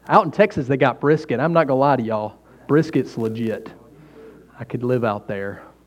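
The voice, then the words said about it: Southern American accent. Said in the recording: “your regional accent. Some of you think I talk really funny, and I do. I do, but around here, I'm normal. So you're welcome to the South.”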